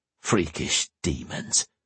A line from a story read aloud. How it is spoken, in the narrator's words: Sir Jonathan finally muttered